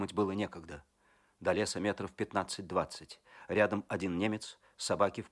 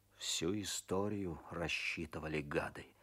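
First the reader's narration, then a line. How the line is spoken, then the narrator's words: Muttering through teeth. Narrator (Russian): бормочет сквозь зубы Козлов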